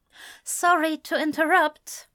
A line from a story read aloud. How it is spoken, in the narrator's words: Cynthia said nervously